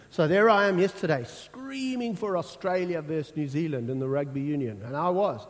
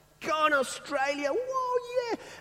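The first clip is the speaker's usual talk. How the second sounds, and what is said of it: Screaming excitedly. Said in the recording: “I'm screaming.”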